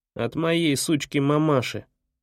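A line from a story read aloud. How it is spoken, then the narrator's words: Contemptuous snort. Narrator (Russian): фыркнул он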